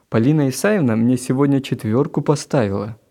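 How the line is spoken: Joyful announcement. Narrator (Russian): радостно сообщил Гена

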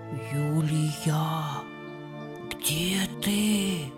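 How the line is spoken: Distant whisper from garden. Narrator (Russian): Послышался знакомый шепот из сада

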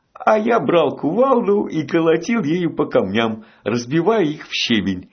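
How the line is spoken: Cheerful laughter. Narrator (Russian): весело рассмеялся он

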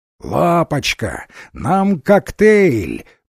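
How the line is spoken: Roaring. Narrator (Russian): проревела она

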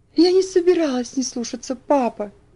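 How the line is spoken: Sobbing. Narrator (Russian): всхлипывала она

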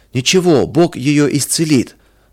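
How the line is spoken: Half-joking shout, boy. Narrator (Russian): То ли серьезно, то ли шутя, выкрикнул кто-то из ребят

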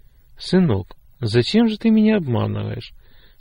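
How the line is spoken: Sad, quiet. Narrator (Russian): вдруг спросил отец грустно и тихо

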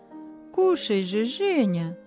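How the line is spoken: Gentle coaxing. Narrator (Russian): ласково уговаривали его хозяева

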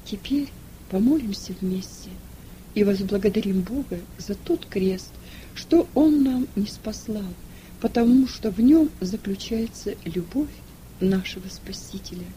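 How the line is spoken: Quiet. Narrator (Russian): он тихо сказал

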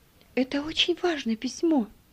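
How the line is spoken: Whisper. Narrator (Russian): шепнула отцу Ева

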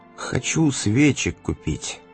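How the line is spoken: Dejected, sinking voice. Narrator (Russian): упавшим голосом сказал он

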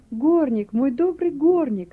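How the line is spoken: Joyful outburst. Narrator (Russian): радостно вырвалось у него

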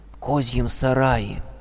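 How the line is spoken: Clear whisper. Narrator (Russian): чей-то ясный шепот

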